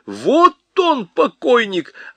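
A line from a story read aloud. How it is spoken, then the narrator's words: Shrill screaming. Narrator (Russian): чей-то визгливый голос вопил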